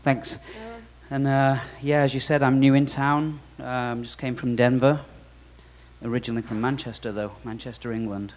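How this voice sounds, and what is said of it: Manchester English accent. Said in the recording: “that really wasn't a Denver accent”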